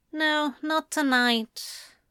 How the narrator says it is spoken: Anathema said sadly

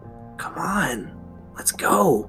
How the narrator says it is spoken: Charlie's unease was growing, to whisper

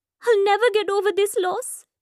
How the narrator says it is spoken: Meeta cries

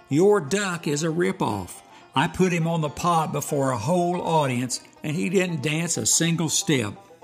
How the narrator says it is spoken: the circus owner stormed back to the bar in anger, hollering

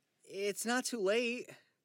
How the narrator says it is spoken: Charlie pleads

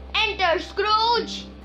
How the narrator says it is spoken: a deep voice called out to him

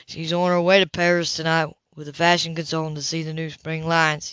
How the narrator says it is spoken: he said drawlingly

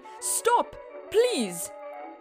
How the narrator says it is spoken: cried

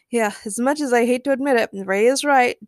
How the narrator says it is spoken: James chuckled

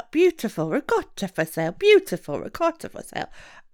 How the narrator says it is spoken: someone cried out

